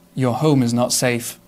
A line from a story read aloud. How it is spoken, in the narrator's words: said gently